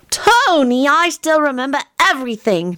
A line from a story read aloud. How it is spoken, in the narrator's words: Teddy said in an exasperated voice